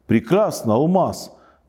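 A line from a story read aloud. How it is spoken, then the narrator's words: Exclaimed. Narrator (Russian): воскликнул король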